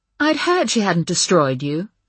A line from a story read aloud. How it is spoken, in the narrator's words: Estelle said in her prim English voice